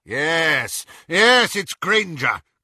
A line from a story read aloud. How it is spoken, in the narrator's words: cried Lucius